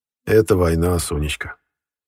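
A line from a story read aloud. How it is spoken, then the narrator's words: Gloomy statement. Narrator (Russian): мрачно озвучил Колчак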